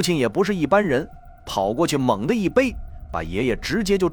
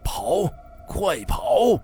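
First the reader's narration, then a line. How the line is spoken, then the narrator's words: Wounded roar. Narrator (Chinese): 爷爷的伤口足有碗口那么大，他强撑着站起来 大吼一声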